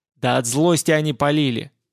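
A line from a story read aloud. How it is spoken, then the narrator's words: Exasperated yell from above. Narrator (Russian): заорал сверху Данила, не выдержав тяжести наших непоняток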